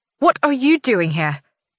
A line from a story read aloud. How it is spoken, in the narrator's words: She snaps